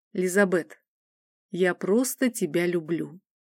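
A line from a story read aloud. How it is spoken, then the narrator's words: Calm, direct. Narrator (Russian): спокойно и прямо произнес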